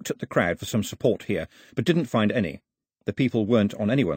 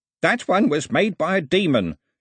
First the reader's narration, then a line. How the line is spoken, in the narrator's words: shouted Ataba